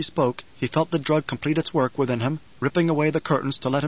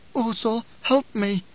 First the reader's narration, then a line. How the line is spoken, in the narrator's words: she cried